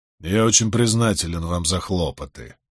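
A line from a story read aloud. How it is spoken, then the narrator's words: Gruff mutter. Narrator (Russian): буркнул он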